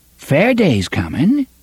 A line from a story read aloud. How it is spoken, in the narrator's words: Coral said brightly